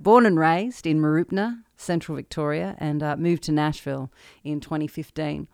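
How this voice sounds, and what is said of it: Australian accent. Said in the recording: “you've probably noticed from my accent, I don't sound southern. South, deep south, down under deep south, from Australia.”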